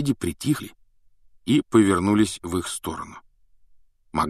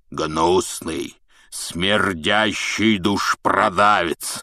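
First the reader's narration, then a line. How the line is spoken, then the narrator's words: Loud growl. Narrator (Russian): прорычал Хагрид на весь бар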